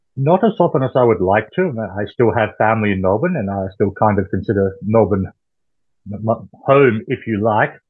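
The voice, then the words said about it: Australian accent. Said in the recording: “your accent ... You're an old Aussie”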